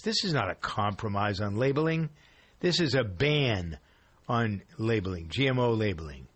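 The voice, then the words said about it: Angry voice. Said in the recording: “This makes me so angry. You can hear it in my voice.”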